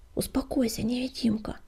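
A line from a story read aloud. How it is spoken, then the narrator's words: Quiet request. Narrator (Russian): негромко попросила Огнегриф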